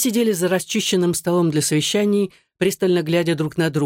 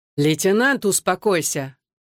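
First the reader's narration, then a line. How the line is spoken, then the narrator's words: Commanding tone. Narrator (Russian): командным тоном произнес Рихтер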